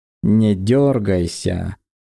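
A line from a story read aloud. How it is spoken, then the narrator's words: Mocking warning. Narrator (Russian): Предупредил он насмешливо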